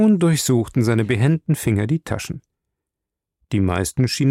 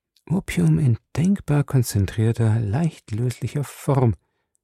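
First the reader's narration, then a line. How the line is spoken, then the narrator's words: Soft whisper. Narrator (German): flüsterte ich leise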